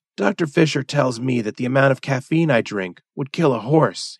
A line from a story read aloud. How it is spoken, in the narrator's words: he said, with a chuckle